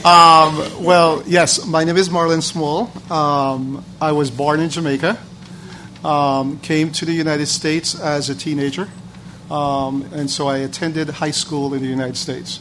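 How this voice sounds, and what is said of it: Slight foreign accent. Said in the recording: “You seem to have a little accent or something there.”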